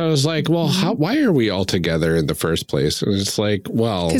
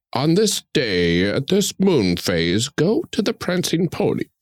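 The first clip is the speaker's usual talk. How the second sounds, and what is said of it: Gandalf-style wizard character voice. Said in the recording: “That's a great Sirian impression ... It's great. It's really good.”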